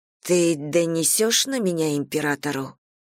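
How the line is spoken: Hoarse agitated question. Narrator (Russian): хриплым от волнения голосом спросила

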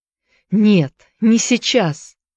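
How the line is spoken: Young man pleading. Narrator (Russian): взмолился молодой человек

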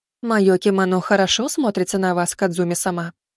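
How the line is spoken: Calm, unamused. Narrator (Russian): не отвечая весельем на веселье хозяйки, спокойно произнесла Хикари

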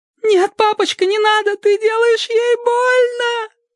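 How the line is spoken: Shrieked. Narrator (Russian): взвизгнула Эллен

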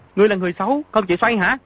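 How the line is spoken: Sickly man, angry. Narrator (Vietnamese): Hán tử bệnh hoạn tức giận nói

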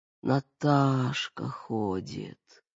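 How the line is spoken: Heavy drawn-out moan, mother. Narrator (Russian): тяжело протянула, как простонала мать

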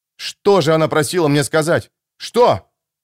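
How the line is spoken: Agitated exclamation. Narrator (Russian): воскликнул я вне себя от волнения

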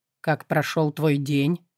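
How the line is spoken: Plain. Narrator (Russian): спросил он

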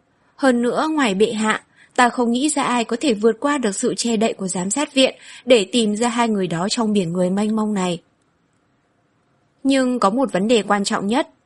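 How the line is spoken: Laughing. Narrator (Vietnamese): Hạ Tông Vĩ bật cười nói

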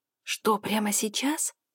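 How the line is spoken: Whispered question. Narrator (Russian): спрашиваю я шепотом

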